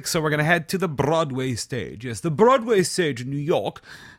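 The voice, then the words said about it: Put-on English accent. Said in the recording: “why I'm doing an English accent, I don't know”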